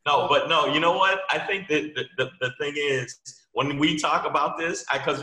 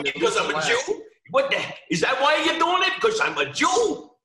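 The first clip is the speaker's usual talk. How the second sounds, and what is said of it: Exaggerated put-on Jewish accent. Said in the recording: “that's a hell of a Jewish accent ... that was super Jewish. I had to put the voice there”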